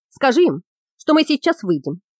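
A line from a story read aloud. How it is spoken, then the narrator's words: Bark. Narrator (Russian): рявкнул Трамец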